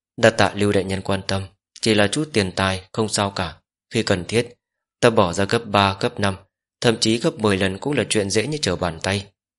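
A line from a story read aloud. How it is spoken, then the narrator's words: Smiling. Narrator (Vietnamese): Ninh Chuyết mỉm cười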